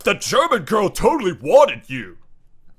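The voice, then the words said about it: Fake frat-guy dude voice. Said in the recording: “Is that your Chad voice? ... a fake Chad voice.”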